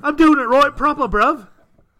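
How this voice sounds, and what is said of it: Put-on British accent. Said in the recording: “My accent will change. I'll start out in England and Britain”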